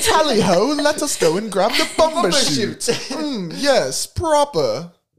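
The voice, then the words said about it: Put-on British accent. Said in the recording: “We're going to get so much crap for our accent... Our accents... It's not horrible. Accurate... Can you do an accurate British accent for us?”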